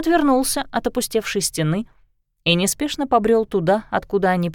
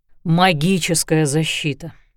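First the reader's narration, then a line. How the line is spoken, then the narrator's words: Sighing. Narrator (Russian): вздохнул Лещинский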